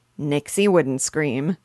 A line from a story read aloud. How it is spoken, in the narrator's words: said Papa, laughing